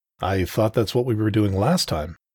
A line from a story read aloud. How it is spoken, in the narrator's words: said